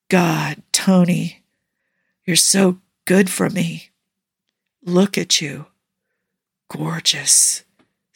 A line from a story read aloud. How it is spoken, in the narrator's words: Steve husked out, a raspy, scraping voice laced with pleasure